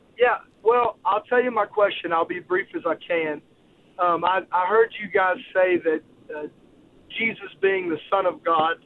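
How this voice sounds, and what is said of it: Virginia accent. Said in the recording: “I've still got my Virginia accent.”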